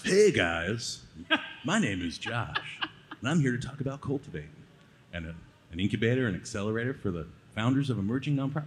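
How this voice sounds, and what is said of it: Announcer-style radio voice. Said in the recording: “Do it again, but with your radio voice.”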